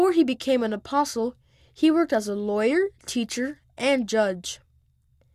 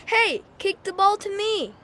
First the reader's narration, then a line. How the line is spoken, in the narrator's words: George yelled